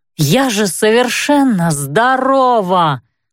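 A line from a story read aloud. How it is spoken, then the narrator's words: Moaning, giving in. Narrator (Russian): простонала, все-таки сдаваясь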